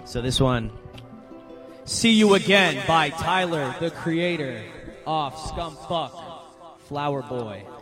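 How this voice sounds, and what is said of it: Radio DJ announcer voice. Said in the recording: “That's my radio voice.”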